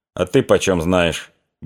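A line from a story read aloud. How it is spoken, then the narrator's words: Spiteful question. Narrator (Russian): беспричинно злобно спросил Лесницкий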